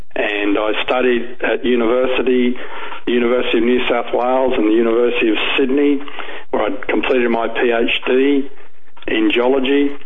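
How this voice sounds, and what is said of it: Australian accent. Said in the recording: “you can tell I have an accent. ... I'm a native Australian.”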